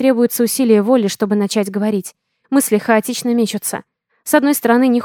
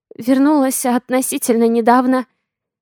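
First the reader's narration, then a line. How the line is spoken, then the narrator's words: Hoarse croak. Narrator (Russian): хриплю я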